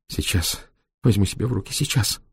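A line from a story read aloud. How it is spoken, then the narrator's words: Muttering. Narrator (Russian): бормотала она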